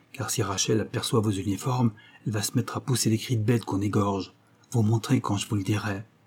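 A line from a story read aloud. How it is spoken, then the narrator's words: Low voice. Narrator (French): dit Louis à voix basse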